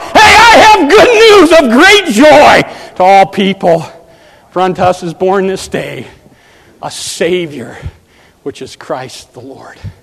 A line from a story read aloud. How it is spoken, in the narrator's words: You get up and shout